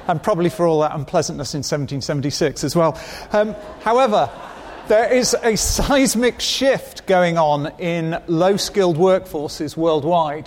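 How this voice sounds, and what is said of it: British English accent. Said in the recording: “I am British, so I feel I should apologize for the accent.”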